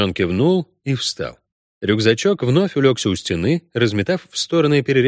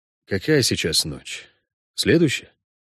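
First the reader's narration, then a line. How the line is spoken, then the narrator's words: Quiet question. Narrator (Russian): тихо справился ведьмак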